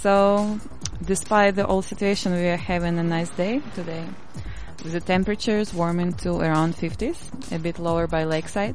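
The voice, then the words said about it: Foreign accent. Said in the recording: “With your accent. What are moose and squirrel anyway?”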